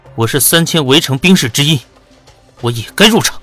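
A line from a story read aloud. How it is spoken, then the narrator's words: Deep, steady voice. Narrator (Chinese): 颜元恒 沉声道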